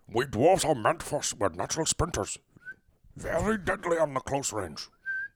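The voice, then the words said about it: Gruff dwarf character voice. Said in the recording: “Now hit me with Gimli.”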